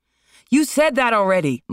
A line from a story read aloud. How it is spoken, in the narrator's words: Marlon shouted